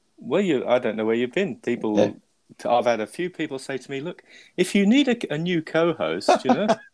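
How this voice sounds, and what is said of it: Lovely foreign accent. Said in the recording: “your lovely accent”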